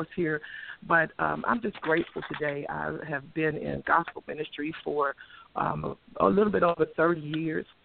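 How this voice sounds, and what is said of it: Hoarse voice. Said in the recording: “My voice is kind of hoarse”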